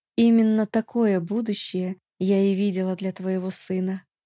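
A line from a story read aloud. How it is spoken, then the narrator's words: Quiet woman's voice. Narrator (Russian): дама и негромко произнесла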